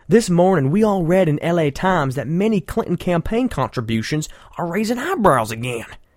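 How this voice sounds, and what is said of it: Imitated Southern politician's voice. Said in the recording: “let me read this in my John Edwards voice ... hopefully his campaign manager's from the South, too”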